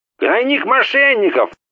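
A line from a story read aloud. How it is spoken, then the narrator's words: Yelling. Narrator (Russian): заорал он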